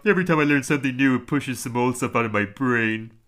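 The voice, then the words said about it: Homer Simpson cartoon voice impression. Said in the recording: “I'll do my impression. Just Homer Simpson. ... That was fantastic.”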